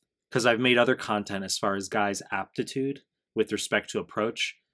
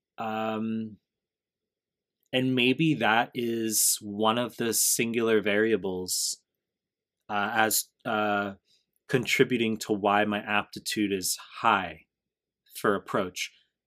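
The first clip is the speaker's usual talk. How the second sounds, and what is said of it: Slow, deliberate speech. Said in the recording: “saying that slowly”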